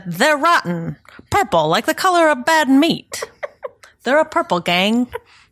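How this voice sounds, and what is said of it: Bad 1920s gangster accent. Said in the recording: “my terrible 20s gangster accent”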